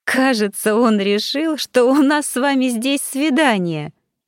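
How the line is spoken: Laughing. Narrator (Russian): рассмеялась я

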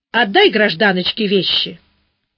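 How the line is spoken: Rude bark. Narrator (Russian): Александр Михайлович весьма нелюбезно рявкнул

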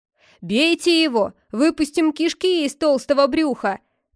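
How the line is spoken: Crowd shouting from all sides. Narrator (Russian): кричали вилланы со всех сторон

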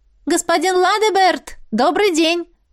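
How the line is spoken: Loud greeting. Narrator (Russian): Громко поздоровалась Аиса

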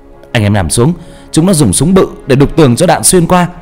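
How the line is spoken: Shouting. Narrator (Vietnamese): Bà la lên

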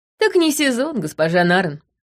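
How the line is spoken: Cheerful. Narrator (Russian): весело ответил он

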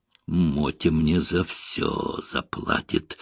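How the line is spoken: Hissing. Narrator (Russian): шипел продюсер

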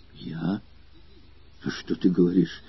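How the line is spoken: Embarrassed mumble. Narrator (Russian): пробормотал Лафрени в смущении

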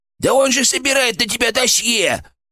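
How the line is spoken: Shrill squeal inside head. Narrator (Russian): взвизгнул у меня в голове фырк

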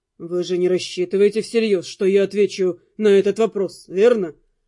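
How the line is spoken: Cold. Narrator (Russian): Холодно произнес Дамиан

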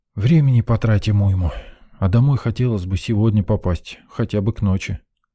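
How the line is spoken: Sighing. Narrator (Russian): вздохнул

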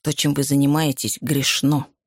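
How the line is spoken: Hissing Irishwoman. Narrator (Russian): прошипела ирландка

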